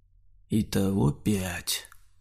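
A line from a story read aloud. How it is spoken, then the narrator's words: Muffled, dull. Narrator (Russian): глухо сказал Саня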